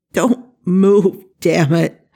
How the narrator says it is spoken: Jack growled, his voice breaking

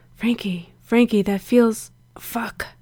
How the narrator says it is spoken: Gerard groaned

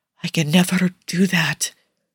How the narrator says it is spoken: Nicola whispers

